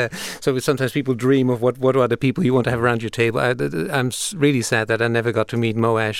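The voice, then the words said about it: Foreign accent. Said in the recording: “as you probably can hear from my accent, I come from outside of this country”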